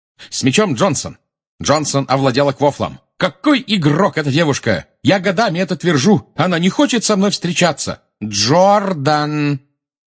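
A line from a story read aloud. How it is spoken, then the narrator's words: Shouted. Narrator (Russian): крикнула профессор МакГонагал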